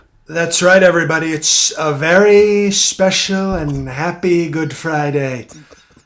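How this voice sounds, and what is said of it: Donald Trump impression. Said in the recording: “who does the great Trump impersonation”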